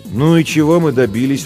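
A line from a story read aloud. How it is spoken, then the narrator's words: Tired question. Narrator (Russian): устало спросила Жен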